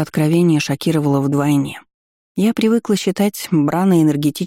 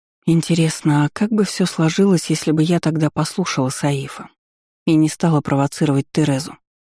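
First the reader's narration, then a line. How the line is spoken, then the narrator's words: Reminiscing sigh. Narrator (Russian): Вздохнула, вспоминая подробности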